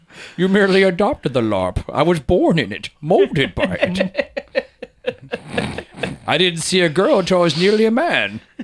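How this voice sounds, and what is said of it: Bane character voice impression. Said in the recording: “you can't mention Bane ... I don't have a coffee cup to do the voice in. That's how it's done best.”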